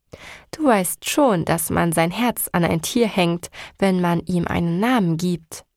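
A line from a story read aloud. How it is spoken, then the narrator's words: Plain question. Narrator (German): fragte meine Freundin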